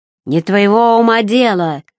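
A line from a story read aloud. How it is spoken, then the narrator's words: Growled. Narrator (Russian): зарычал Сарацин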